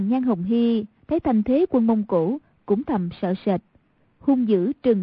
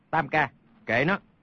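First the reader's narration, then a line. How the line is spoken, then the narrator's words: Low voice. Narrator (Vietnamese): Hoàng Nhan Hồng Liệt hạ giọng nói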